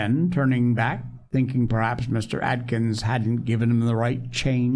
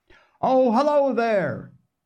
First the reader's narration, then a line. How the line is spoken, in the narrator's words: the storekeeper, who was also the postmaster, called out